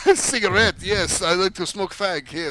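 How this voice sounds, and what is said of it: Bad put-on French accent. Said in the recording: “Your French accent suck, man. Okay. It's not funny at all.”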